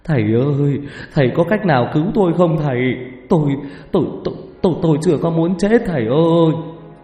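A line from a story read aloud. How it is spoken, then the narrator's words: Tearful pleading. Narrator (Vietnamese): Ông ta mếu máo xin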